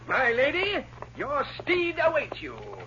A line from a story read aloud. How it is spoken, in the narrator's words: With mock dignity, he called out